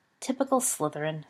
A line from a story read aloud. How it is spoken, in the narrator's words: smirked Sirius